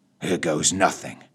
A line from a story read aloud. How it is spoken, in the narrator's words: muttered